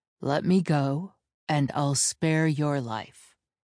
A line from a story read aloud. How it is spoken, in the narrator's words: he said evenly